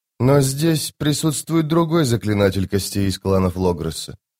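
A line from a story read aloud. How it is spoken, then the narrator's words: Flat toneless voice. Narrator (Russian): произнесла она бесцветным тоном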